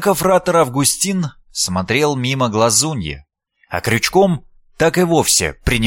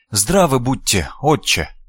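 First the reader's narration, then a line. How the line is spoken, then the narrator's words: Shy boy's mumble. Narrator (Russian): промямлил мальчишка, мечтая стать невидимкой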